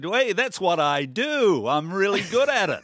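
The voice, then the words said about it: Imitates another person's voice. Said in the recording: “Donald Trump said ... That was a terrible impression ... it was a good impression”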